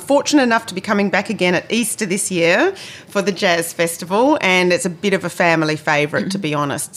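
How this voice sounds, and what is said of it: Australian accent. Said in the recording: “my Australian accent, trying to be Kiwi, I always find that those names I don't quite pronounce correctly”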